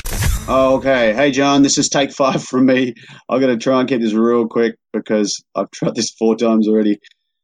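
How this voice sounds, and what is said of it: Australian accent. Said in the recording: “we'll let ... introduce the authentic Australian accent for us”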